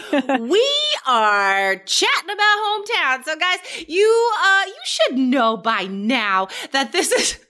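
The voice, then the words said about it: Condescending mom-like intonation. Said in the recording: “I took on like a mom voice there for a second ... that intonation”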